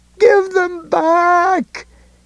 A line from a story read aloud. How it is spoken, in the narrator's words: bawled again